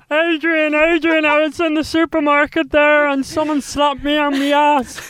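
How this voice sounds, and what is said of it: Imitates another person's voice. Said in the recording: “your impression ... what my Jeremy sounds like”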